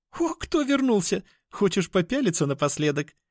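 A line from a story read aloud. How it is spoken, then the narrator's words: Giggling. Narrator (Russian): Хихикнула темненькая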